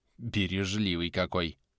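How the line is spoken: Wife's scornful snort. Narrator (Russian): фыркнула супруга

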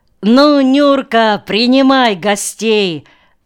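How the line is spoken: Joyful shout from doorway. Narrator (Russian): радостно с порога закричал Машкин

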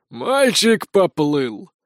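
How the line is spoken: Hoarse male voice. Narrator (Russian): раздался хриплый мужской голос за моей спиной

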